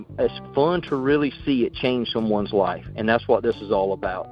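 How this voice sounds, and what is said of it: Fast speech, Southern country twang. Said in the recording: “I know I talk fast. I got a country accent. ... this guy is just really country. ... I'm from South Carolina ... I got that Southern twang”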